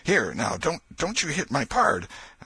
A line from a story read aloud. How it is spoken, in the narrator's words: exclaimed